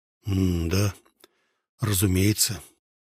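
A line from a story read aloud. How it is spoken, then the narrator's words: Muffled reply. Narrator (Russian): глухо ответить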